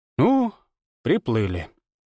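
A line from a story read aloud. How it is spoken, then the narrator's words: Resigned sigh. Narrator (Russian): обреченно вздохнула Ирма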